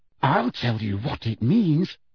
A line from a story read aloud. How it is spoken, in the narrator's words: said Hermione through gritted teeth